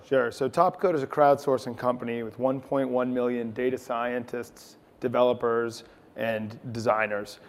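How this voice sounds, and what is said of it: New England accent. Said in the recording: “It's the accent. ... You have the New England accent.”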